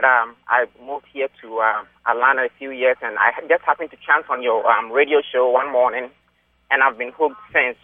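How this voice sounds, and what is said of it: African accent. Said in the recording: “I'm from up north, as you can tell from my accent. I'm an African”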